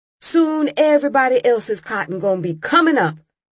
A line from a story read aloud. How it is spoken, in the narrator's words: Raymond shouted